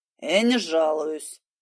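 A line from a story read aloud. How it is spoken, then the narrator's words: Grumbling. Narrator (Russian): проворчал Володя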